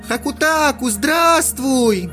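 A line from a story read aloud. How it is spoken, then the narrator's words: Fox spirit shouting. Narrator (Russian): кицунэ закричала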